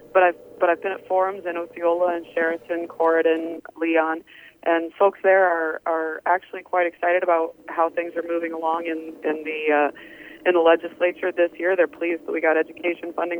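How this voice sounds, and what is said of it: Sick, strained voice. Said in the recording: “As you can probably tell from my voice, I'm still struggling a bit. This nasty bug that's going around just hangs on.”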